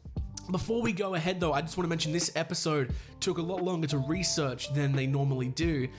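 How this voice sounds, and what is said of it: Australian accent. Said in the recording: “I'm allowed to do the accent because I'm Australian”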